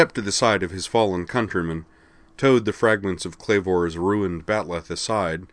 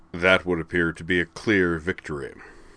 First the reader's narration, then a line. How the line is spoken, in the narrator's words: said Zarg Thalek dryly